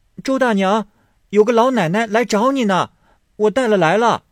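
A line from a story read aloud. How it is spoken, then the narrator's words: Calling out again. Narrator (Chinese): 又叫道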